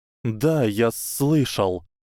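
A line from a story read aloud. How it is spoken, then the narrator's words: Hissing. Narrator (Russian): прошипел Гарри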